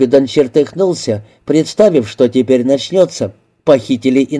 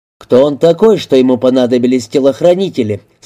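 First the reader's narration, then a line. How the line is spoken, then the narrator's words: Plain. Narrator (Russian): спросил Купиден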